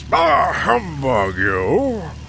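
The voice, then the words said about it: Crotchety old man voice. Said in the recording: “my impression of Ebenezer ... That's about as good as I can get it ... Crotchety old man”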